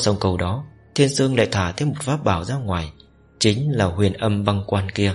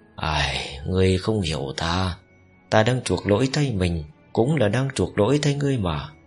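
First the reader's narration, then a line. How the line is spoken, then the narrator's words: Sighing. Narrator (Vietnamese): Thiên Dương thở dài một tiếng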